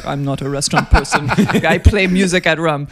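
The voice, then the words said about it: Imitates another person's voice. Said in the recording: “I'm really sorry for doing his accent”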